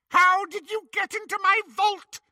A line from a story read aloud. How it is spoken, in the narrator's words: Bellatrix scream